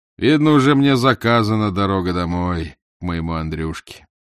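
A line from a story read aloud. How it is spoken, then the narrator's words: Heavy sigh, weary. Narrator (Russian): тяжело вздохнув, сказал плотовщик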